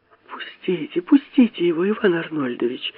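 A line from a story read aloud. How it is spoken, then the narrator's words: Two women pleading together. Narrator (Russian): взмолились одновременно обе женщины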